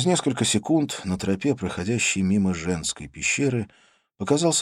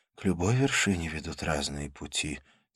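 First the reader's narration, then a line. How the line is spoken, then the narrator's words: Quiet. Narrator (Russian): тихо сказала она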